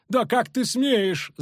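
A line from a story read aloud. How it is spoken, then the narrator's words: Screamed. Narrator (Russian): завопила Матрона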